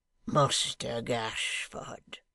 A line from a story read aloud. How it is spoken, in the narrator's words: wheezed the hangman under his breath